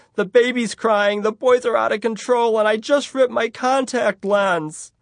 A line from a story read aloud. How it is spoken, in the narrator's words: she wailed into the phone